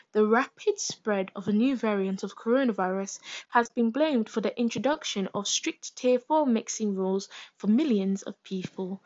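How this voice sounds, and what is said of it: Smooth radio presenter voice. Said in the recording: “Smooth radio voice.”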